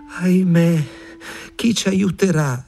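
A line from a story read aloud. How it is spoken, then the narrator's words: Exclaiming. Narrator (Italian): esclamava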